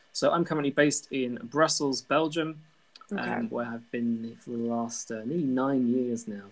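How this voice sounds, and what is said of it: British accent. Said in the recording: “my very British accent”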